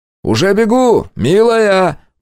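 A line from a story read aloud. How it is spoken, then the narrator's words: Shouted reply. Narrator (Russian): прокричал в ответ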